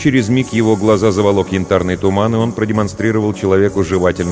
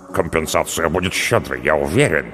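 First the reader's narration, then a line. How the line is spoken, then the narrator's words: Muttered. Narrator (Russian): пробормотал Харальмара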